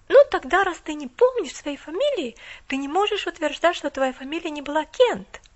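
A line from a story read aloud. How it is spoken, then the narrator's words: Exclaiming. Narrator (Russian): воскликнула она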